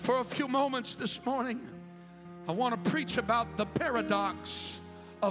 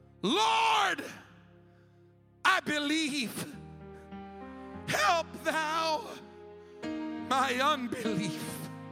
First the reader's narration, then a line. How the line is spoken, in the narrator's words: the father of the child cried out and said with tears